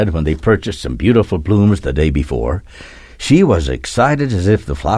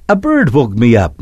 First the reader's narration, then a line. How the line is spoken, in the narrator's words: Natasha said and laughed